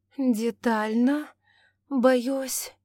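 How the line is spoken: Heavy sigh. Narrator (Russian): тяжко вздохнула Августа

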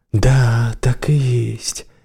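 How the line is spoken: Quiet, smiling. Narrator (Russian): улыбнулась своим мыслям и тихо сказала

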